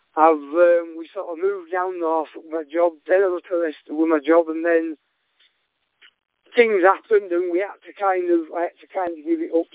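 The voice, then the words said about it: Unmistakable Yorkshire accent. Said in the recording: “I'm from like first North Yorkshire ... I thought that was a Yorkshire accent. Very unmistakable.”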